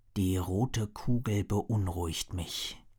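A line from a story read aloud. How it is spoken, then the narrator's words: Murmur. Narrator (German): murmelte Griffith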